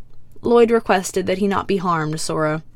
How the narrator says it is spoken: the white ninja sighs

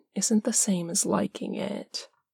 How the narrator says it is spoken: Parm says, his voice a soft murmur in Dean's ear

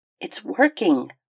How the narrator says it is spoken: Ronnie said cheerfully

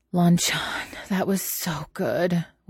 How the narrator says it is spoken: Wei Ying sighs

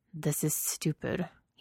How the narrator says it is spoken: he muttered to himself

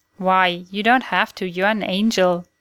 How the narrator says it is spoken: Dean exclaimed

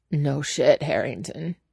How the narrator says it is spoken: he says, eventually, surprised at the croak of his own voice

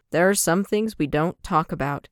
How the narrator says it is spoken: Harry Potter said in a firm tone

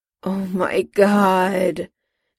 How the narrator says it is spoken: Jim groaned, this time in defeat

